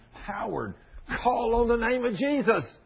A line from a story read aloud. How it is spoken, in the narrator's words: tears began to gush out of my eyes as I'm screaming